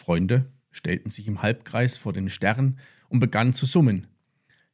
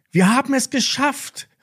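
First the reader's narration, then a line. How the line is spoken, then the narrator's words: Joyful call. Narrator (German): rief Lilly und sprang vor Freude auf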